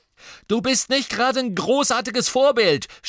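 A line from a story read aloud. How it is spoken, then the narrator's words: Angry shouted reply. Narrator (German): schrie McLagan mit zornesrotem Gesicht zurück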